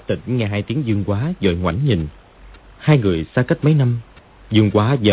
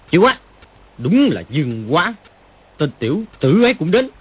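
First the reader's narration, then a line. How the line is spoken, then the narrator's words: Angry exclamation. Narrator (Vietnamese): Triệu Chí Kính sắc diện đại biến, tức giận thốt lên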